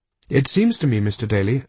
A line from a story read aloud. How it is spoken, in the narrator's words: I said